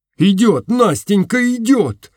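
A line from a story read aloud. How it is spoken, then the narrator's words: Delighted shout. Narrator (Russian): закричал я в восторге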